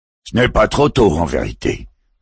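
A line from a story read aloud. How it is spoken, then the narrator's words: Growling. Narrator (French): gronda Antiang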